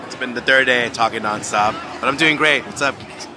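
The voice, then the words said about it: Tired, worn-out voice. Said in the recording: “Maybe somebody might not recognize my voice because I'm really tired.”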